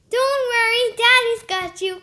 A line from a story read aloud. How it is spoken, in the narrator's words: cried Mr